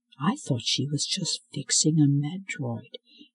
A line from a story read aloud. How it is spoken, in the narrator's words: he murmured to himself